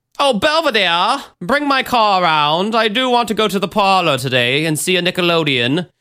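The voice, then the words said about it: Fake posh transatlantic accent. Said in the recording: “My fake transatlantic accent, because you have to talk like that when you're rich.”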